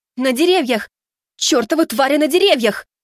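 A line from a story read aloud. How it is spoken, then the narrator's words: Shout. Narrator (Russian): крикнула Хаэлин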